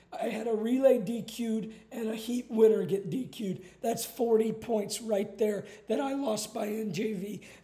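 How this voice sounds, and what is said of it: Hoarse, nearly lost voice. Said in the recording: “my voice is gone. I hurt my back. I was jumping up and down so much.”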